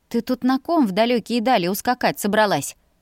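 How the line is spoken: Laughing. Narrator (Russian): хохотнула я

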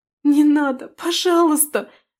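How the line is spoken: Tearful pleading. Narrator (Russian): сквозь слезы умоляла его Аделия

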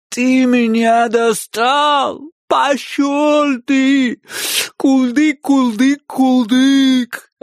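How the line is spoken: Whiny girlish voice, muffled. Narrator (Russian): Отозвался я плаксивым девчачьим голосом, лежа лицом в ковролине

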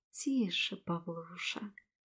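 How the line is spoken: Tender voice, close to ear. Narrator (Russian): Ласковым голосом проговорила я ему на ухо

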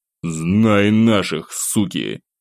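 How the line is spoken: Spat angrily. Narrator (Russian): Злобно сплюнул

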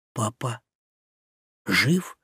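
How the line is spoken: Breathless fearful hope. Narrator (Russian): выдохнул я, боясь и безумно желая поверить в то, что это правда

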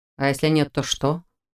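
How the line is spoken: Calm inquiry. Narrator (Russian): спокойно поинтересовался Дифрон

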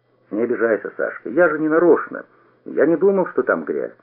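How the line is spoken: Quiet peaceable. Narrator (Russian): я сказал тихо и миролюбиво

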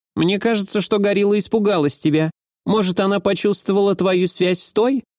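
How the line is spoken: Nasal pinched-nose question. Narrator (Russian): Гнусава спросила Нацука, сжимая нос пальцами

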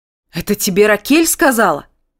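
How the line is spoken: Shouted. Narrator (Russian): закричал

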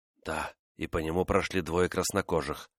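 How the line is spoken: Whisper. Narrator (Russian): прошептал Амос

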